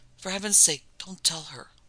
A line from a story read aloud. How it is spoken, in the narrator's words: whispered D'entrée